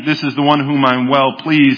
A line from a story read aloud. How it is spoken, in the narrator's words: he says instead